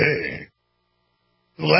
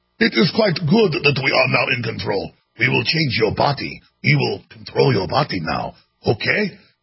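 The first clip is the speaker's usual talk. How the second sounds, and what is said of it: Klaus Schwab impression, weak German accent. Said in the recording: “that's not a very good German accent. He's German ... it's like it's a Bond villain voice”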